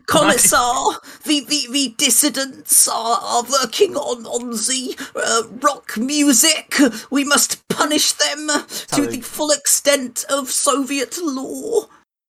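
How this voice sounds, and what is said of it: Weak put-on German accent. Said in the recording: “a Gapes voice and a German accent ... It's not very German. ... The German didn't come through so much.”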